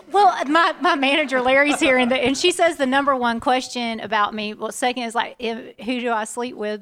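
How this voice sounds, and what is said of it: Southern American accent. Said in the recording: “Southern accents? ... is my accent real? Do I really speak like this?”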